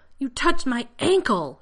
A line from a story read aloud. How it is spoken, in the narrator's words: John shouted